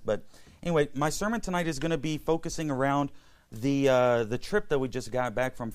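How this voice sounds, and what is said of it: Hoarse voice. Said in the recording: “my throat is a little bit hoarse tonight”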